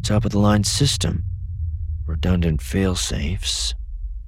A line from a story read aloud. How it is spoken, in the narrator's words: he muttered